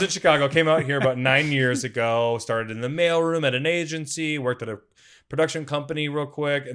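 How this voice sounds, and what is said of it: Usual voice. Nothing is said of it.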